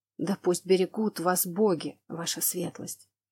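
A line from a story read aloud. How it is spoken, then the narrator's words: Breathy whisper. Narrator (Russian): С придыханием прошептал мужчина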